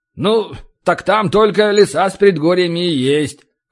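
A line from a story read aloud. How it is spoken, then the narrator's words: Dwarf's snort. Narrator (Russian): хмыкнул гном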